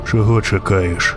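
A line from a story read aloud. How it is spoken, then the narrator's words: Quiet question. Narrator (Ukrainian): запитав тихо вершник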